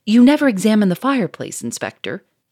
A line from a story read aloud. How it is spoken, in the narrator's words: cried savagely